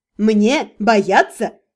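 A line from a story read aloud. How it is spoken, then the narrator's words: Scoffing woman. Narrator (Russian): Красавица хмыкнула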